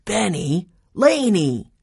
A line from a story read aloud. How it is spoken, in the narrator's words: he exclaimed